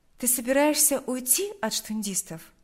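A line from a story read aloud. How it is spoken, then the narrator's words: Plain. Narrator (Russian): спросила она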